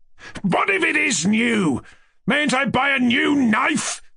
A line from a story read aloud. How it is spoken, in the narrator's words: Rogojin cried in a perfect frenzy at last, growing more exasperated at every word